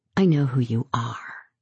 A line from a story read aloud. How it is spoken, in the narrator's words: whispers